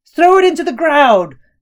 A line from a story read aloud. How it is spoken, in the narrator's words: old man yelled